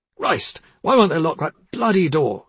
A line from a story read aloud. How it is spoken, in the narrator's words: Trevor cried